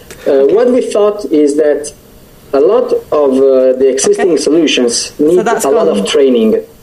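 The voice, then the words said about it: Italian accent. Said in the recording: “wonderful Italian accent”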